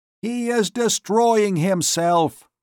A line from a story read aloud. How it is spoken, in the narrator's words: cried aloud